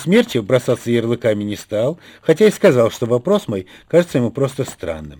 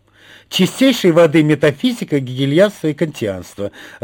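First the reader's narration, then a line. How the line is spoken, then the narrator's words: Joyful exclamation. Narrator (Russian): радостно воскликнула пропаганда Парамоновна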